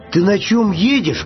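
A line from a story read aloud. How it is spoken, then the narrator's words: Bear cub shouting. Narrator (Russian): крикнул медвежонок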